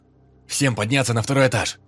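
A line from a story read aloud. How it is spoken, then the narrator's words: Loud command. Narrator (Russian): Громко скомандовал он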